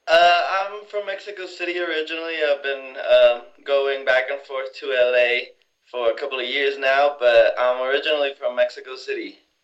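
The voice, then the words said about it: Speaks with a noticeable accent. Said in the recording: “I hear an accent.”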